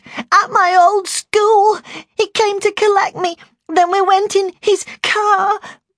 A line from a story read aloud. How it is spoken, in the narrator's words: she sobbed